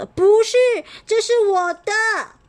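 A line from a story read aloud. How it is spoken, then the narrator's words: Angry wailing. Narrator (Chinese): 小米气气冲、气冲冲的哇哇叫着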